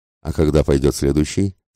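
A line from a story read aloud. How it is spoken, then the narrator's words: Plain. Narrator (Russian): спросил Филиас Фок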